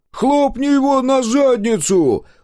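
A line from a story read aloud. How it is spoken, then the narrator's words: Yelling amid crowd. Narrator (Russian): завопил Дозер, присоединяясь к орущей толпе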